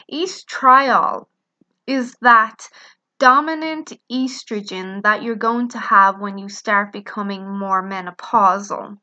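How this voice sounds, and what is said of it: Noticeable accent, speaking slowly. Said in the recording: “saying it a bit slower so you don't get confused with my accent”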